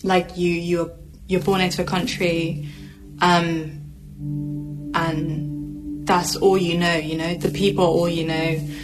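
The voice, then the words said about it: Emotional, voice close to tears. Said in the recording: “I'm so sorry, guys. Like, I don't know why I'm getting emotional. That's really weird. I just need a second. ... What made you get emotional?”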